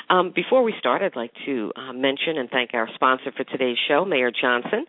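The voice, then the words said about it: Rough, sick-sounding voice. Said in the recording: “excuse my voice. I'm just getting over the flu.”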